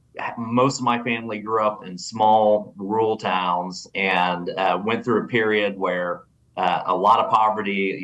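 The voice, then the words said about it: Oklahoma accent. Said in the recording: “as you can tell from my accent, I am, not from Washington, D.C. originally, grew up in Oklahoma.”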